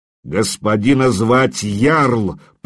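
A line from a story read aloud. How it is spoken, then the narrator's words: Growling. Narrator (Russian): прорычал он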